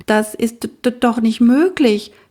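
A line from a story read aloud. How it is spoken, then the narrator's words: Stammering. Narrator (German): stotterte sie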